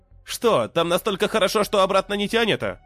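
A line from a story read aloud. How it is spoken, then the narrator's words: Snide question. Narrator (Russian): ехидно спросил я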